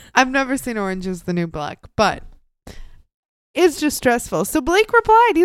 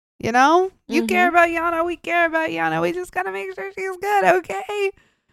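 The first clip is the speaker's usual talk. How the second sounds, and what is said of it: Raspy voice. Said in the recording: “you sound like Natasha Lyonne ... That raspy”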